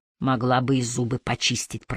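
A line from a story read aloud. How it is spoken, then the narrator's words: Muttered through teeth. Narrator (Russian): процедил Харри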